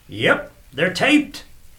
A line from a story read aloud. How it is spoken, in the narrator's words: bellowed the clerk